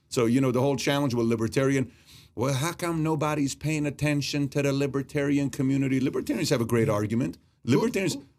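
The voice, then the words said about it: A good imitated accent. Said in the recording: “who was that accent? You did a good accent.”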